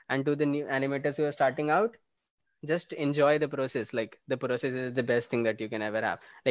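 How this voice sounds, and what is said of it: Shaky, sore-throat voice. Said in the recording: “my voice isn't, this is not our sound, by the way, in reality. I am like having a sore throat and that's why I'm like, my voice is really shaky.”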